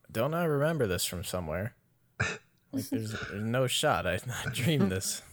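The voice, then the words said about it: Somewhat British-sounding accent. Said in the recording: “a somewhat British accent”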